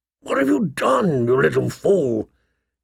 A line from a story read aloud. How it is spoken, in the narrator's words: He asked hoarsely